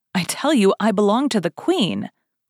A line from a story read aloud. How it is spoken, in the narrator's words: cried the unfortunate woman